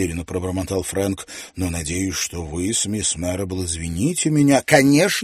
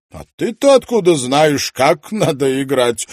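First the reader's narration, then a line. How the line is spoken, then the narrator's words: Laughing. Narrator (Russian): рассмеялся мистер Ванстоун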